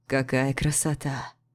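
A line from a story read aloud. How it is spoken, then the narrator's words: Hoarse. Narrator (Russian): произносит Артур хрипло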